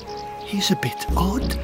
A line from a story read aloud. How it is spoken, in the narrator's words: the courtiers in his castle whispered to one another